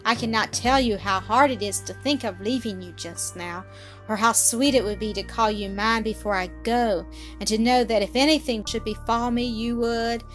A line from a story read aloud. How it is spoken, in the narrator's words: he sighed